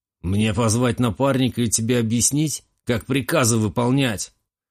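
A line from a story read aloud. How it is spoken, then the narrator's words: Jailer's growl. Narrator (Russian): рыкнул тюремщик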